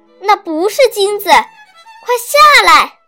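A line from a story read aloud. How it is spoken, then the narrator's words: Shout. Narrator (Chinese): 艾博先生喊道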